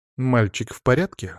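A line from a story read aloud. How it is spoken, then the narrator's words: Plain. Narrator (Russian): спросила она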